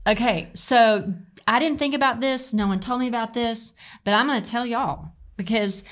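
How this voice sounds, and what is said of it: Southern Arkansas accent. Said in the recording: “I love when your southern accent comes out, by the way. It's like that Arkansas, y'all.”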